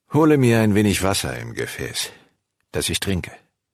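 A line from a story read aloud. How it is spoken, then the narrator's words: Called out. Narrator (German): rief ihr zu und sprach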